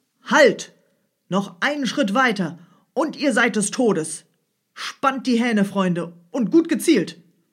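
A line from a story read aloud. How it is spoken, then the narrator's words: Loud shout, strong voice. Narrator (German): schrie der Jäger mit starker Stimme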